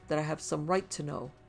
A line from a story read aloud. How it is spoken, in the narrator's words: he faltered oddly under her gaze